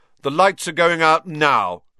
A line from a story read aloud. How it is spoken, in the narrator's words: Percy shouted